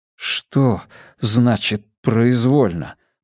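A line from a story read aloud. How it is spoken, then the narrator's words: Mumbling. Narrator (Russian): пробормотал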